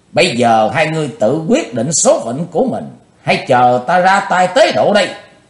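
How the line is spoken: Loud shout. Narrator (Vietnamese): Chí Tôn hét lớn

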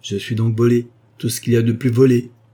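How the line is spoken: Timber merchant exclaiming. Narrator (French): s'écria le marchand de bois

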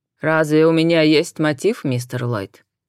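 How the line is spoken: Clipped, emphatic. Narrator (Russian): отчеканил итальянец

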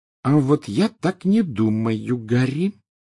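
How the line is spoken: Slow. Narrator (Russian): медленно заговорила Гермиона

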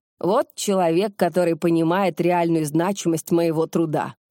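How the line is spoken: Solemn proclamation. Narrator (Russian): торжественно провозгласил Куделин

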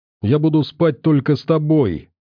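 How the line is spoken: Exclaiming. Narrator (Russian): воскликнула Настя

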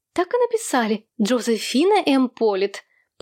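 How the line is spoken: Friendly tone. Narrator (Russian): подтвердила Джинни Полит доброжелательным тоном

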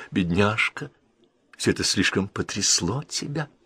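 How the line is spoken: Surprised whisper. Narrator (Russian): Леди Энн Кейтл с удивлением прошептала

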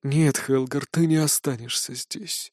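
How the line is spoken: Sad. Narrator (Russian): грустно отвечает

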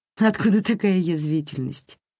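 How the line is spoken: Laughing. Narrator (Russian): рассмеялась она

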